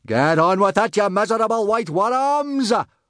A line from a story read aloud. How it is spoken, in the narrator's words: roared Gobber